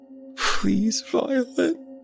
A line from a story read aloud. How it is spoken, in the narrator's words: whimpered